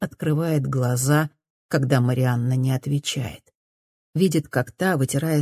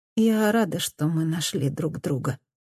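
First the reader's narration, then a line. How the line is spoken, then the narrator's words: Mumbling. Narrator (Russian): бормочет Мадда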